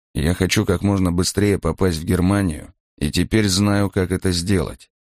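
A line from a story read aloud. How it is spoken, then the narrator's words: Quiet, into someone's ear. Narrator (Russian): негромко говорил он на ухо Крёнеру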